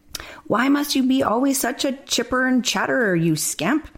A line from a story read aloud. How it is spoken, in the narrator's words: shouted